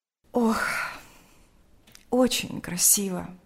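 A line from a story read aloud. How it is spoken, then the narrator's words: Sighing. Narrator (Russian): сказала она, вздохнув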